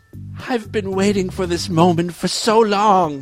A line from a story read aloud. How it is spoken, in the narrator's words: he moaned